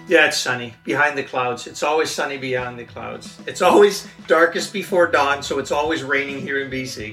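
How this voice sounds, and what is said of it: Hard-to-place Dutch-Canadian accent. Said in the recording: “you're driven nuts by trying to place his accent. You won't get it ... Being from The Hague in Holland, but living in Canada for the last 20 years”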